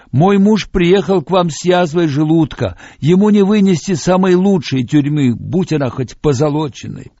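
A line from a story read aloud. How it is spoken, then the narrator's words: Woman shouting back. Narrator (Russian): Одна из женщин кричала в ответ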